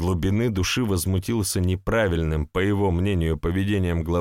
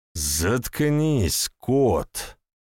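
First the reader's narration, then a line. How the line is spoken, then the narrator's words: Angry bark. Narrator (Russian): Рыкнул главарь, на чью власть явно покусились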